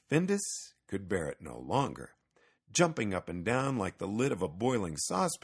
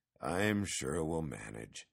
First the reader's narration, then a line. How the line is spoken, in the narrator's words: Petson mumbled